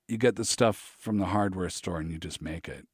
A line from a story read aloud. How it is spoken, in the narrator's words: he murmured